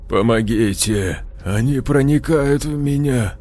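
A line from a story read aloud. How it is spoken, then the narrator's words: Quiet. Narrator (Russian): тихо сказал Данте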